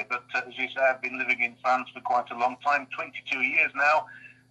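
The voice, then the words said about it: Strong West Yorkshire accent. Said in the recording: “UK listeners may have already picked up on my accent ... my accent is still there, still strong, still going.”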